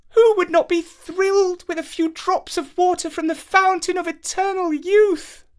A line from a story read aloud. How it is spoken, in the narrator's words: she exclaimed